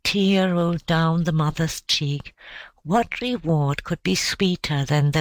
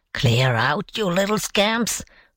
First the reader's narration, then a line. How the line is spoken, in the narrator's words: grumbled the besieged